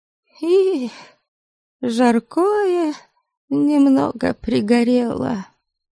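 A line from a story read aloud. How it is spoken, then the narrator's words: Barely audible. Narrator (Russian): Тут же повинилась Найра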